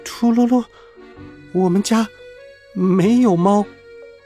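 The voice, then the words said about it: Suppressed trembling voice. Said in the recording (Chinese): “鹦鹉抑制着颤抖的声音说”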